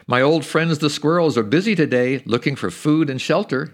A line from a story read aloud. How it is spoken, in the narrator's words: he said